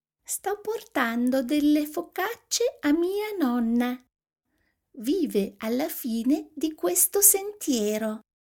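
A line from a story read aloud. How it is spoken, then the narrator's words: Thin small voice. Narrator (Italian): disse con voce sottile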